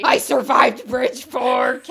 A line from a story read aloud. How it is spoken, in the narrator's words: Kaladin growled